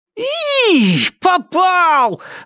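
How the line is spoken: Squealing. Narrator (Russian): завизжал

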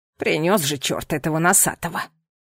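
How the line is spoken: Grumbling grandmother. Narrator (Russian): проворчала бабуля

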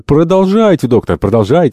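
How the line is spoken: Plain. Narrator (Russian): сказал Альтамонт

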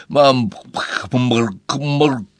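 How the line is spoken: Wheezing, choking girl. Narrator (Russian): Хрипела Энни, все еще держась за горло

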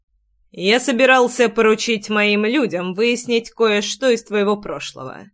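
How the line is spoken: Icy male reply. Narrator (Russian): ледяным тоном отозвался мужчина

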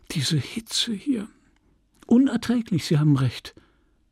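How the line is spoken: Sighing. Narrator (German): sagte seufzend

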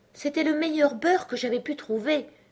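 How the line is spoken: Humble reply. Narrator (French): répondit l'autre d'un ton humble

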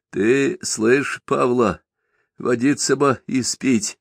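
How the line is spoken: Sleepy. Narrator (Russian): сонно повторил Степка

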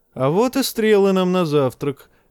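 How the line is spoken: Cheerful exclamation. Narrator (Russian): весело воскликнул Пип

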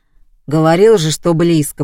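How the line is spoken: Booming drone. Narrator (Russian): прогудел Вован

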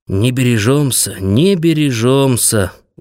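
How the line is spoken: Sighing. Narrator (Russian): вздохнул Левка

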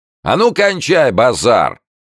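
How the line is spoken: Shouted. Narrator (Russian): крикнула рожа

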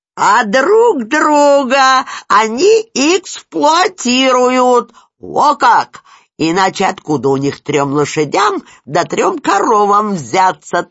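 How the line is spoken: Triumphant shout. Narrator (Russian): торжествующе крикнул Спирин

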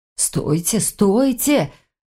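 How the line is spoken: Stammering plea. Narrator (Russian): заикаясь, попросил Нев

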